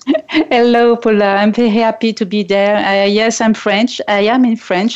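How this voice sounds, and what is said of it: French accent. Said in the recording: “who's from France, and so we get to experience her beautiful accent”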